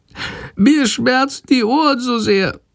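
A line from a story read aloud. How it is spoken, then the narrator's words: Meek sick whimpering. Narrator (German): jammert die kranke Fledermaus ganz kleinlaut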